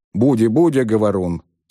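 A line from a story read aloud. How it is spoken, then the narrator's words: Softening grumble. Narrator (Russian): смягчаясь, пробурчал мсье Пьер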